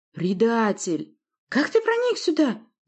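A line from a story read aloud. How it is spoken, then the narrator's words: Shriek. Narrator (Russian): взвизгнул следом Власта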